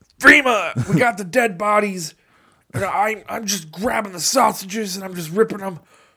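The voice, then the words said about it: Imitates another person's voice, poorly. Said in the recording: “I wish I could do a good impression of Alex Jones. I'm so bad at impersonations.”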